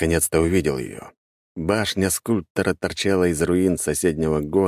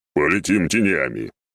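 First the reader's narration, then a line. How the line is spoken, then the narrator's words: Smirking snort. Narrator (Russian): хмыкнул Мальфир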